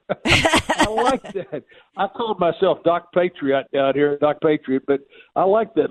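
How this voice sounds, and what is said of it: Southern American accent. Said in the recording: “I am so excited to hear a Southern accent. ... I'm always glad to hear a Southern accent, doctor.”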